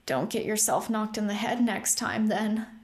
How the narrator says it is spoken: croaked

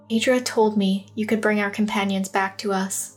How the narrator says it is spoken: she whispered

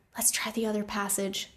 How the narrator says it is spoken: Thea whispered

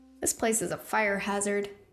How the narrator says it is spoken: Rune murmured

